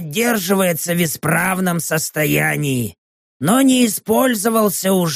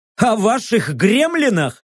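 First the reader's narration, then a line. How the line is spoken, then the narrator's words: Laughing. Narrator (Russian): рассмеялся я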